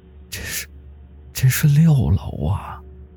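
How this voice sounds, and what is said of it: Despairing low whisper. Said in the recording (Chinese): “绝望的小声说道”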